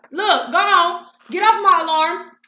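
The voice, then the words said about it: Yelling. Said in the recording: “I'm yelling on my kids”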